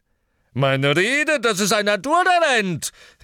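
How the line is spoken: Calling out. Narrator (German): rief Slughorn

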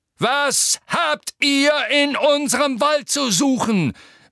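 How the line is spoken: Centaur roaring. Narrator (German): brüllte der graue Zentaur mit den harten Gesichtszügen

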